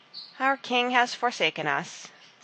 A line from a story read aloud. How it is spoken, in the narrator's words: said the people sadly